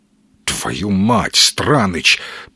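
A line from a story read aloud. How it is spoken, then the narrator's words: Stunned, nauseous mutter. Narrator (Russian): пробормотал ошарашенный сталкер, чувствуя, как к горлу подступает рвотный спазм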